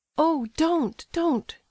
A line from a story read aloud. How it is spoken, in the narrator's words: she exclaimed in alarm